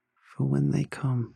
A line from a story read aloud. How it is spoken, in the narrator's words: my wife said softly